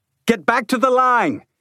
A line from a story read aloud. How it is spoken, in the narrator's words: Leeward shouted